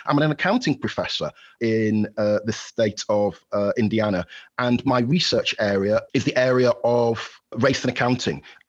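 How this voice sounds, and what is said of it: Yorkshire English accent. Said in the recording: “as you might have heard from my accent ... I'm a Yorkshire lad at heart. I'm originally from Halifax in West Yorkshire”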